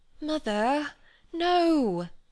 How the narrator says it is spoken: she pleaded

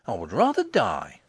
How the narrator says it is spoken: he exclaimed

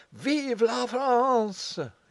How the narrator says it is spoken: he bawled with all the force of his lungs

